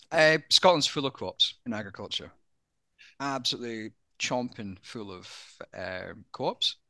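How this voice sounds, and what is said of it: Australian accent. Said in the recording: “as a Scotsman, many people don't realize I'm Scottish. With my Aussie accent... My Aussie accent”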